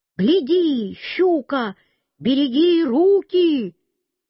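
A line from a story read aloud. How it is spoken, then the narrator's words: Repeated shouting. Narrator (Russian): Один, самый главный, рыбак, все кричал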